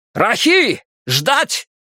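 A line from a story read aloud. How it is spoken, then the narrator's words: Shout. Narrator (Russian): крикнул Нгома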